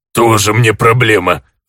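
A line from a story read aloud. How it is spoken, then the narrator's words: Snorting. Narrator (Russian): фыркнул орк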